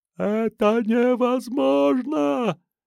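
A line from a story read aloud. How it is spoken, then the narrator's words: Silent mouthed shout. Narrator (Russian): Он беззвучно кричал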